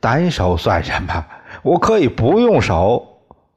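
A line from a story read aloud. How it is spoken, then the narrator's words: Laughing. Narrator (Chinese): 宋刚笑了 对李光头说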